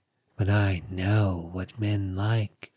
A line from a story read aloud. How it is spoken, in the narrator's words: she moaned softly